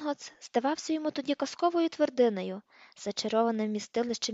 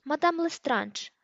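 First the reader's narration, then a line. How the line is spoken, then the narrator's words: Frightened goblin's shout. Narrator (Ukrainian): вигукнув гоблін, явно переляканий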